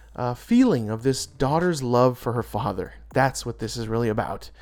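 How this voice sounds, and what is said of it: Choked up, emotional voice. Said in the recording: “I'm getting choked up.”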